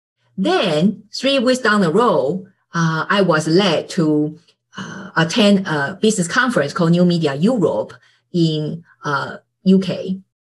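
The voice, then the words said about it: Non-native English accent. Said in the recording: “your accent, you are not American, you are not British”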